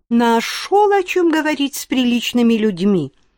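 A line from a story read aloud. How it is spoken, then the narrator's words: Indignant, from next room. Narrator (Russian): возмущенно отозвались из соседней комнаты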